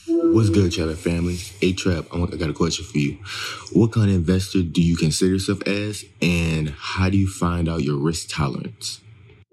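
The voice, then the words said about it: Whispering. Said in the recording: “stop whispering to me ... Don't whisper to me, bro”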